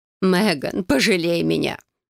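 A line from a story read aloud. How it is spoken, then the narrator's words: Moaning mother. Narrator (Russian): застонала матушка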